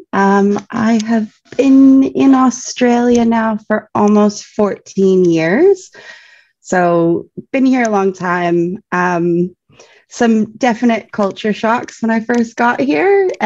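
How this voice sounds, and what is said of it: Slight Canadian accent. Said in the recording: “you'll notice I have a bit of an accent. I'm Canadian.”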